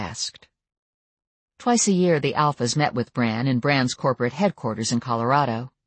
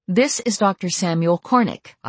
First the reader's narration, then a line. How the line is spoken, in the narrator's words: I told her firmly